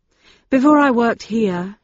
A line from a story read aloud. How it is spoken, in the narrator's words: said with another sigh